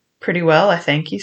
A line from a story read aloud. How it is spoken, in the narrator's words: says you